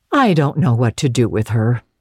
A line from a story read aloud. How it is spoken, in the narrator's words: said Marilla